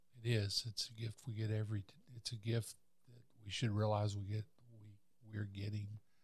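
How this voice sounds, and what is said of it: Voice starting to go hoarse. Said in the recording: “Starting to lose my voice a little bit.”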